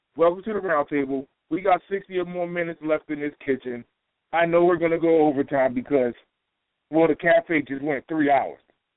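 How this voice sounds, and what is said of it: Hoarse, strained, nearly lost voice. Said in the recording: “As you can hear, my voice is gone. My voice is gone.”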